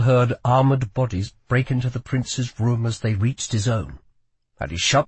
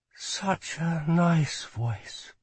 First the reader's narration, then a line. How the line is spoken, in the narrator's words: said Rye quietly